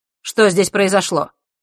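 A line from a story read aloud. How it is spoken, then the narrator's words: Sharp tone. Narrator (Russian): резким тоном спросил он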